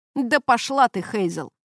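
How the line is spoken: Scornful snort. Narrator (Russian): фыркнул Келвин

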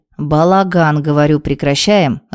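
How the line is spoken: Killer's growl. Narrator (Russian): рыкнул убийца

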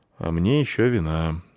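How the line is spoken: Sigh. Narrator (Russian): вздохнул драматург

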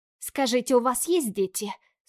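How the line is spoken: Angry question. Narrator (Russian): спрашиваю зло

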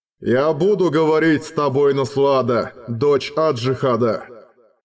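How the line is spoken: Booming voice in ears. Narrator (Russian): прогремел у них в ушах голос Глоэдера

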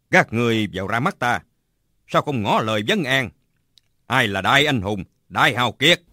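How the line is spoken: Shouted. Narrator (Vietnamese): Bạch Tự Tại quát lên

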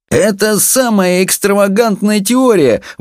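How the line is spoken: Exclamation. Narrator (Russian): воскликнул психолог

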